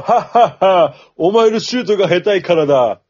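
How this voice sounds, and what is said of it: Laughing impression of Akagi. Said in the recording (Japanese): “赤木のものまね”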